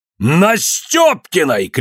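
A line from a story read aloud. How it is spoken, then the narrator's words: Shouted. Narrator (Russian): крикнул Иван Максимыч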